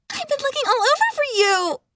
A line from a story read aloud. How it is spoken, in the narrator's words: She cried in what was clearly a fake falsetto voice